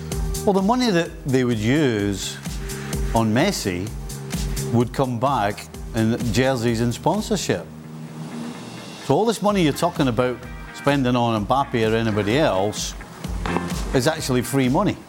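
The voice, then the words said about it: Impression of Gab Marcotti. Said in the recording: “my Gab Marcotti impersonation”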